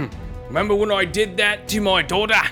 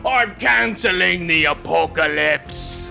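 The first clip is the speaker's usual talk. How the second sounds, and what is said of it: Imitates another person's voice, slipping Australian. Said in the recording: “Now I'm sounding Australian. ... You're jumping in and out of your characters here.”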